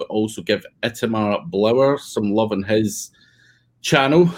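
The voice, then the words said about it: Speaker's own regional accent. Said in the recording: “this tedious accent”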